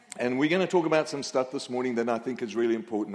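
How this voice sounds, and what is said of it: Australian accent. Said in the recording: “My accent is Aussie”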